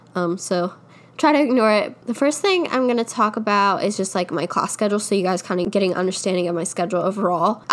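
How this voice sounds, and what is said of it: Nasal, congested voice. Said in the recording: “sorry about my nose or if I sound any nasally. I have a little bit of a cold”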